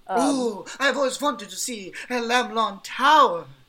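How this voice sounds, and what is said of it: Strong put-on character accent. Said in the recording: “Quite the accent.”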